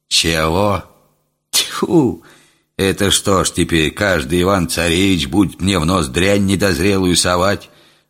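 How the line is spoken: Old man grumbling. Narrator (Russian): Заворчал старик

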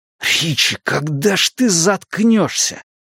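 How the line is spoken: Hiss. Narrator (Russian): прошипел Эдди

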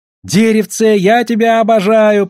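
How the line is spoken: Shouted. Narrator (Russian): прокричал Тимми

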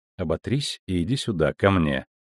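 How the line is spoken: Cold. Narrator (Russian): сказала она холодно

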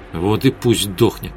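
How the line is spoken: Muttered. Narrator (Russian): пробормотала Светлана

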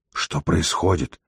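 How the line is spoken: Whisper. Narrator (Russian): прошептал Савл

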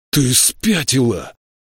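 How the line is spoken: Roared. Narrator (Russian): взревел Ленти

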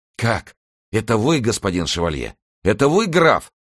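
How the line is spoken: Exclaiming. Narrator (Russian): воскликнул он

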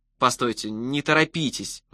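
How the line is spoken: Pleading. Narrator (Russian): взмолился я

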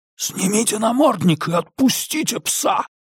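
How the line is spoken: Hissed. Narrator (Russian): прошипел Диккенс

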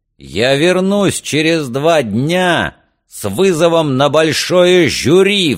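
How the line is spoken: Roaring. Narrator (Russian): взревел он

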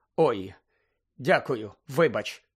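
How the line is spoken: Mumble. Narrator (Ukrainian): пробурмотів він

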